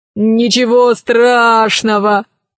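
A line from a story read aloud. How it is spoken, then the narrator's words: Laughing. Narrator (Russian): рассмеялся Милодар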